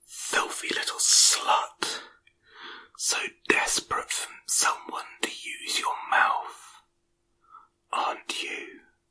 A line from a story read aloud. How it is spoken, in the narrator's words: leans in and whispers in my ear